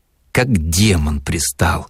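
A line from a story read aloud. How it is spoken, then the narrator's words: Muttering. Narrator (Russian): бормотала в полумраке Дарья Петровна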